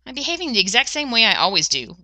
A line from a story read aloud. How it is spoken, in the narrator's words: Rodney snapped, like a brilliant man who doesn't have time to waste on pointless observations